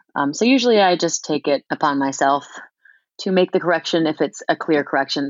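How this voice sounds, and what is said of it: New Zealand accent. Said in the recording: “you clearly have a Kiwi accent”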